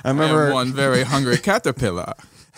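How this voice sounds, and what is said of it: Vague put-on foreign accent. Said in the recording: “I don't know what that accent was supposed to be either.”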